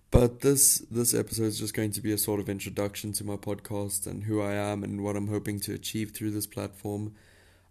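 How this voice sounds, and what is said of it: South African accent. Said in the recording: “you're probably wondering where my accent is from, but I am a South African, born and bred”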